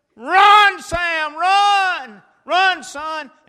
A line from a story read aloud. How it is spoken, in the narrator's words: I'm yelling